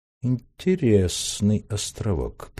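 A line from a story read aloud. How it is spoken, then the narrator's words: Drawling. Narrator (Russian): протянул Раст Петрович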